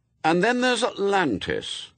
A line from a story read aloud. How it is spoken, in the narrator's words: said Adam loudly